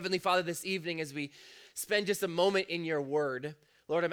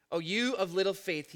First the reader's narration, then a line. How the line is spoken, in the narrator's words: he said